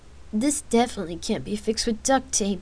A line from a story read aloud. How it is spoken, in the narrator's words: he answered with a chuckle